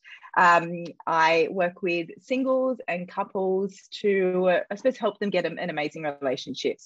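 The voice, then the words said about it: Australian accent. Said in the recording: “based in Australia, as you might be able to hear from my accent.”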